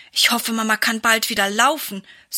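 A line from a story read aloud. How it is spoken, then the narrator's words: Sigh. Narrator (German): seufzt Sarah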